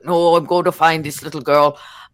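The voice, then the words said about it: Scottish-accented impersonation of another person. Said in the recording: “my Edward impersonation ... Because he's Scottish, right?”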